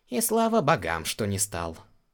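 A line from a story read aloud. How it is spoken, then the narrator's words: Sigh. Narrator (Russian): вздохнул Гэрен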